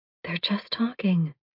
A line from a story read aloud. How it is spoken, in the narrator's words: Hope says quietly